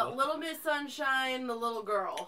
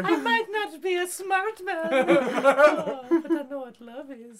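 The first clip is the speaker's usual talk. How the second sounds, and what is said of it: Put-on German accent. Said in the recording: “do the Hitler accent for that ... I can't do a German accent.”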